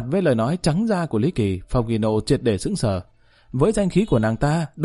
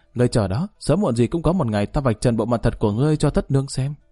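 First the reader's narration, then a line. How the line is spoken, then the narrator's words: Soft, stunned anger. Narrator (Vietnamese): sững sờ, trong mắt hiện lên một tia tức giận, khẽ nói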